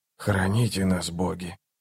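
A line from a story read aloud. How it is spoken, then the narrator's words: Whisper. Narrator (Russian): прошептал Барук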